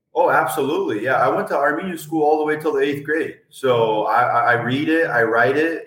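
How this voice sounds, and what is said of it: Slight Armenian accent. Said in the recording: “you don't sound like you're American born ... you still got a little hint of that Armenian accent”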